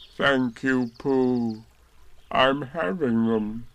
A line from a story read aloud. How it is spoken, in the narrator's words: said Eeyore gloomily